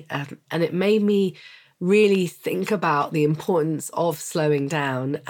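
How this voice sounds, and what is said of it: Congested, cold-sounding voice. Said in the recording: “as some of you can hear, I've got a cold, so I'm going to do my best to communicate clearly”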